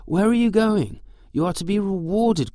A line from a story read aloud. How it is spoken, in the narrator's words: called out the Sultan